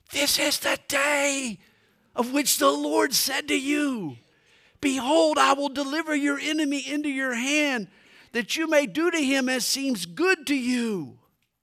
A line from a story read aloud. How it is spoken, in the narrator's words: his men whisper